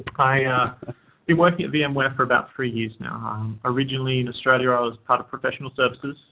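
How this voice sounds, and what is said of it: Australian accent. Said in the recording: “I hail from Australia. That's why I have a funny accent.”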